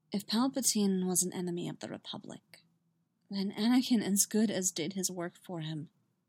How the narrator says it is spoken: Quietly, Padme said

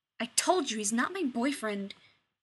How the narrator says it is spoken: Shepard snapped

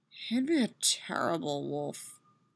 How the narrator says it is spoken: she mutters

